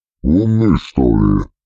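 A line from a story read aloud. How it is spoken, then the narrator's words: Grumbling. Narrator (Russian): проворчал гримуар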